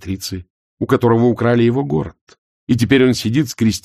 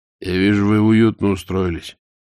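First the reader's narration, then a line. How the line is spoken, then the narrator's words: Mumbling. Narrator (Russian): промямлил Ваймс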